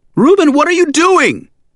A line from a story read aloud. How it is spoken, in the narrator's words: She screamed